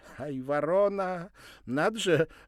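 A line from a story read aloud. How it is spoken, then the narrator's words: Laughing. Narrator (Russian): рассмеялась она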